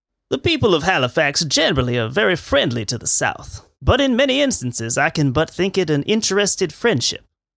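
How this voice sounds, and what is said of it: Put-on Confederate character voice. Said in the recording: “I do my voice? My Confederate voice?”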